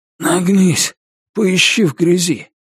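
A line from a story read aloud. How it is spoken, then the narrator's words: Groaning. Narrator (Russian): Ричард застонал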